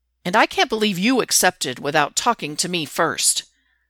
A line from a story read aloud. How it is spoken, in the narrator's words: Derek snaps at Stiles